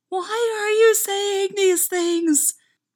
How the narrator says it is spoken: A little voice inside Stiles screamed at him

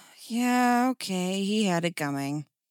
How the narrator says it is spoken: Dick sighed

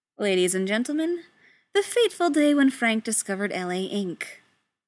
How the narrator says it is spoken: says dryly, and some of the tension drops away again

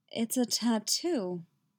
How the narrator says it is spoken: he says, still in that dreamy, absent voice

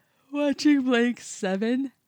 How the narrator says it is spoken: he said, yawning

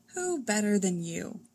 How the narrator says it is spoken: Superman sighs

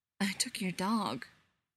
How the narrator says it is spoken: Spencer says softly

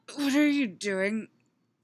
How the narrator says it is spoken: Eddie says, in between gasping breaths

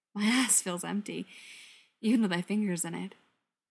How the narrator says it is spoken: pants

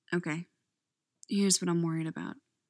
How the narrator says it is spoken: Sam says softly

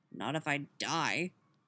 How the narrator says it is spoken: Billy grumbles

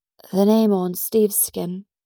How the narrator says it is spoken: Peggy says sadly

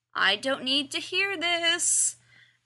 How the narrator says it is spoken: groans

